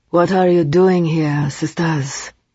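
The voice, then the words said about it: Deep accented male voice. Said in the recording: “his wonderful accent and deep voice”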